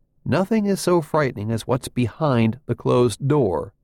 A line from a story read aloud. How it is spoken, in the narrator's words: Nolan said